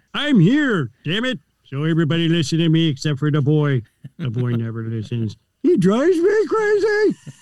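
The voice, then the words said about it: Cartoon character voice impression. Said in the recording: “there's Homer J. Simpson”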